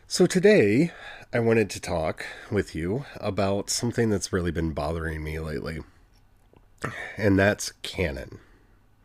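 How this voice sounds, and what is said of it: Weak, strained voice. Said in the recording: “my voice sounds a little weak, I recorded 6 chapters of the audiobook ... my voice is a little weak”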